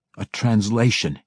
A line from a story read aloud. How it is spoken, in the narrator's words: he growled